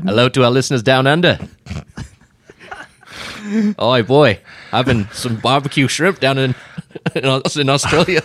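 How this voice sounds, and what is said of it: Put-on Australian accent. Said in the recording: “you started speaking in an Australian accent”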